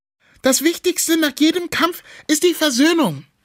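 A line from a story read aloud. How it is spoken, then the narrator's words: Calling out. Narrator (German): ruft sie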